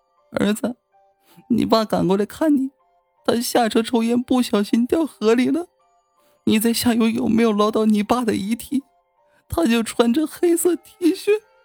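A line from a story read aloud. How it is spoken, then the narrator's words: Mother weeping. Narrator (Chinese): 母亲哭哭啼啼的声音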